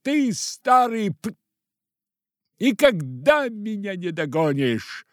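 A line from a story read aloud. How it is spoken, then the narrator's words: Shout over shoulder. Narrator (Russian): крикнул через плечо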